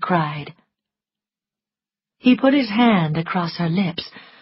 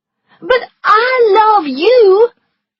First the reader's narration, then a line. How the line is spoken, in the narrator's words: she cried